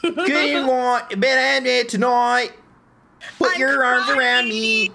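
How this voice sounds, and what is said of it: Singing in a pop punk voice. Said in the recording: “the pop punk voice”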